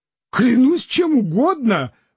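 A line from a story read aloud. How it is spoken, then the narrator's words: Exclamation. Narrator (Russian): воскликнул тогда Санчо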